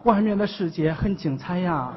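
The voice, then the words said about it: Put-on Henan regional accent. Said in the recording (Chinese): “撇县他口音嘛 ... 肖啊，肖啊，口音 ... 河南是吧？”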